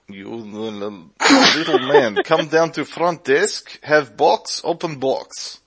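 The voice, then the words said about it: Put-on Middle Eastern accent. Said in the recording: “Middle Eastern accent”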